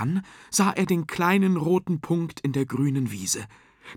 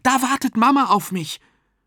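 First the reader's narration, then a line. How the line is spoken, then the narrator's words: Called out. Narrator (German): rief Jakob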